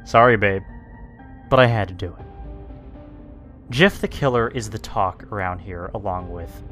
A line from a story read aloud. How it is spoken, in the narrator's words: Zach said